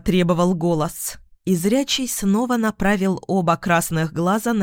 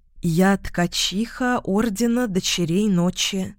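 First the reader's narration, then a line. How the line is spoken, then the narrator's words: Uncertain girl's reply. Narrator (Russian): неуверенно отозвалась девушка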